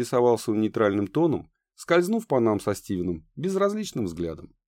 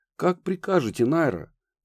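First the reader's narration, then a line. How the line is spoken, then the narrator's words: Frightened butler's mutter. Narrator (Russian): пробормотал едва ли не перепуганно дворецкий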